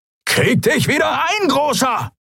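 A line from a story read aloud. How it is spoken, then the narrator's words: Shrieking. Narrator (German): kreischte Halbhorn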